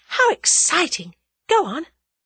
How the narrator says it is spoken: breathed Tuppence

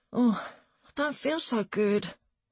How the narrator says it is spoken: I mumbled

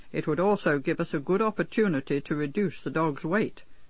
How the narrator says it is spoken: remarked rather sternly

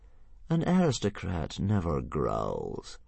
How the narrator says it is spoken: purred Fireworm sweetly

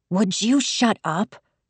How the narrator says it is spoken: she growled

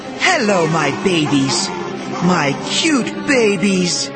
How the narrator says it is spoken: she exclaimed

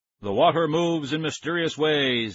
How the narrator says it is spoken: I boomed in my loud magician's voice

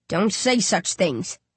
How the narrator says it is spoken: he croaks, looking on the verge of tears

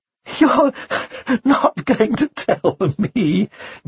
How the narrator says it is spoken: giggled the presenter

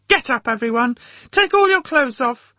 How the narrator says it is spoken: the same woman's voice shouting

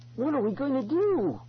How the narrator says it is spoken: Ben cried

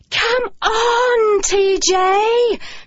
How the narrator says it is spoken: cried the girls

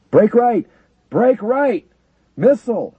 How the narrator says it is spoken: Evans screamed

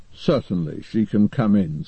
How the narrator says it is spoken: said the man sleepily

